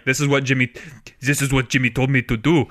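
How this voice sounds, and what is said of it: Put-on French accent. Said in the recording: “that's my best French accent.”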